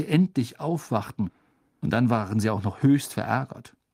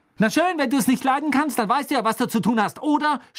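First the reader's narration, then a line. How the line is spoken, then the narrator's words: Shouting. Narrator (German): schrie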